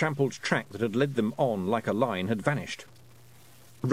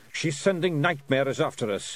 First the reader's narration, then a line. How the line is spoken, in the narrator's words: he growled